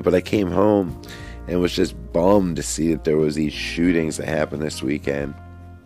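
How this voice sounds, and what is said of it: Slightly hoarse voice. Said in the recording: “my voice, you can hear, I'm probably still a little bit hoarse,... singing out in the humidity took it out of me”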